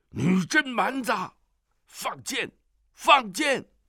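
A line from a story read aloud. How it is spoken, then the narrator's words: Crowd shouting. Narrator (Chinese): 那些契丹人却叫了起来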